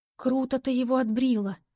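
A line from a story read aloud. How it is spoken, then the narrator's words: Whispered. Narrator (Russian): прошептала Алиска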